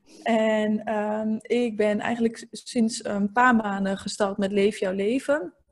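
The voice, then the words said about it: Slight eastern Dutch regional accent. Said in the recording (Dutch): “ik kom uit het oosten van het land ... ik heb ook een klein accent. Klein of groot ligt aan wie het hoort.”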